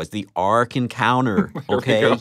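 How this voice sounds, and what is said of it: Attempted American Kentucky accent. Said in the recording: “I'll use my Kentucky voice. ... That was absolutely hopeless.”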